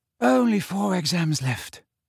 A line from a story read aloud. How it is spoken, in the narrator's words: said Parvati Patil wearily